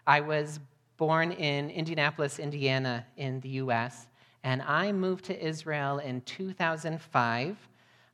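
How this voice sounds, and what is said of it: American accent. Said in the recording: “You may notice from my accent that I don't sound like Yoel. I'm not British, and I'm not native-born Israeli either.”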